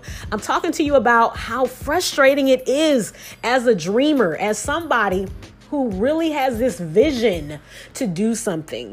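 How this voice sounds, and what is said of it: Excited, energetic, hyped-up delivery. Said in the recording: “I'm hyped. Can you hear it in my voice? Most of the time, I'm talking a little bit more calm than this. But like, I'm really, really hype”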